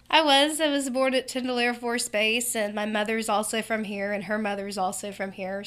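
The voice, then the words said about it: Slight country twang. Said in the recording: “a little bit of a country twang”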